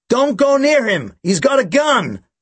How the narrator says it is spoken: she shouted out

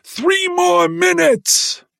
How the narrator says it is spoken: cupped his hands over his mouth, and bellowed

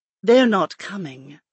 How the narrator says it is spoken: Lindet replied, her voice dripping with acid

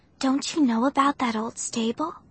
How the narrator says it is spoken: She asked in a hushed voice

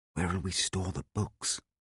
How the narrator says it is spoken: I whispered

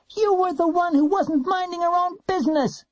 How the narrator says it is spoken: Warren yelled

